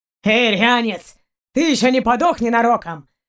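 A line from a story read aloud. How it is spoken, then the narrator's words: Booming nasty voice. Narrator (Russian): прогремел противный голос Барка в ушах у Кристины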